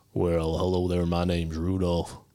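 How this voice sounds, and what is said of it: Southern tough-guy voice as Rudolph. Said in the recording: “He was kind of like a southern tough guy... A tough southern”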